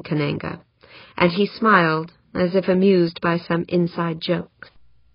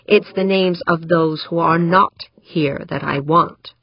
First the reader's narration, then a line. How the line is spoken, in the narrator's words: Eberle growled